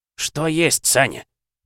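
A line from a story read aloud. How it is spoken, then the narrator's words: Irritated. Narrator (Russian): почему-то раздраженно отреагировал Витаутович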